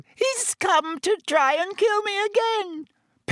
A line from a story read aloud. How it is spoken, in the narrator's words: Pettigrew squeaked suddenly